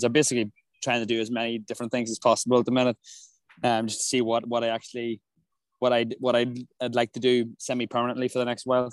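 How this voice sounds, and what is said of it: Irish accent. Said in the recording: “the duo Irish accents on here ... with quite similar uh, accents.”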